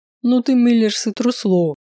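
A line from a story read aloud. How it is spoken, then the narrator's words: Laughing jeer. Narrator (Russian): хохотнул Дэн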